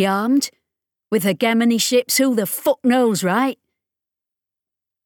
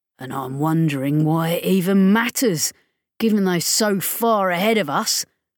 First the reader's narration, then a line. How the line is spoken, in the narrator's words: Rollo growled